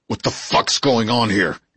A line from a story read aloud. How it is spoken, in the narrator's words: He growled